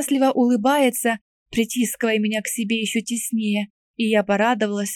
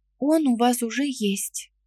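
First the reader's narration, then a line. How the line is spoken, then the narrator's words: Quiet reply. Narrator (Russian): ответила также тихо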